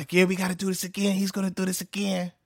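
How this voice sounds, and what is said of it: Poor imitation of another person's voice. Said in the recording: “My Mike Tyson voice is terrible. I have a terrible Mike Tyson impersonation.”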